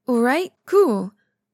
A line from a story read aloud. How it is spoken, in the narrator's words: Wei Wuxian exclaims